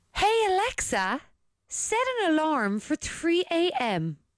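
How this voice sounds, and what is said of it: Put-on posh voice. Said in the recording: “maybe use your posh voice to do it ... She mightn't understand that accent.”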